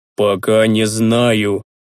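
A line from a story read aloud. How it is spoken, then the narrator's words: Priest, through gritted teeth. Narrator (Russian): процедил священник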